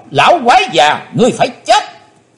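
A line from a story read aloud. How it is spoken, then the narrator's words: Shouted. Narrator (Vietnamese): Miệng thì quát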